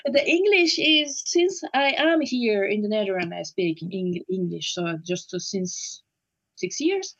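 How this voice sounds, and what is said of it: French accent with Dutch tinges. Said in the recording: “I hear you've got a French accent, but you've also got a Dutch accent. ... You pronounce some of the words you pronounce with a Dutch accent.”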